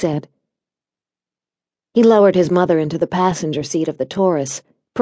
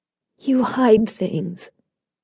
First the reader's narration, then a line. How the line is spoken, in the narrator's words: she said after a while, her voice weak and shaky